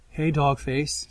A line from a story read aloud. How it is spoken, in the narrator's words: Sandra says, her voice soft